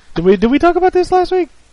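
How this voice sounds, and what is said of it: Suddenly high-pitched voice. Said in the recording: “Why did my voice get so high right there?”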